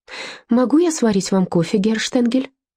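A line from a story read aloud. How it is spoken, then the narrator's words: Cheerful offer. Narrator (Russian): бодро предложила Эдельтраут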